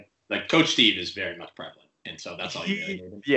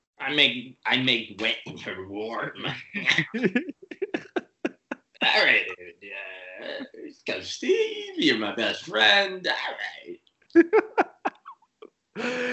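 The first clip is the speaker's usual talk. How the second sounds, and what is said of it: Imitates another person's voice. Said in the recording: “You do such a good impression of that.”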